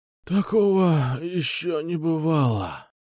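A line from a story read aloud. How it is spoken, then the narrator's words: Groaning addict. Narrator (Russian): Простонал нарколыга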